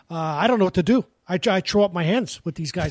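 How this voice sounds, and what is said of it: Imitates another person's voice. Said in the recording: “That's a good imitation.”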